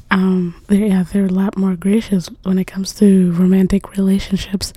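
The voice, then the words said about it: Strained, fading voice. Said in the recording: “why am I losing my voice?”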